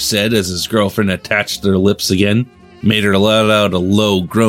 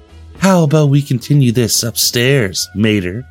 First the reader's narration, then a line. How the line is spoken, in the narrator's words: Holly said in a sultry voice